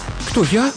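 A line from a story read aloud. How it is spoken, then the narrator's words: Frightened question. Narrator (Russian): Испуганно уточнила Мелика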